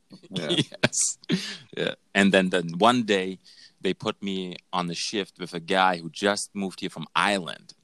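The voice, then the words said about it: Heavy German accent. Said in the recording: “the heavy German accent”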